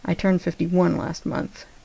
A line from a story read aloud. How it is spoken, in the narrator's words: John murmured against his mouth